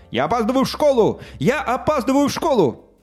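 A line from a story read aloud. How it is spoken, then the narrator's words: Shouted. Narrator (Russian): Миша кричал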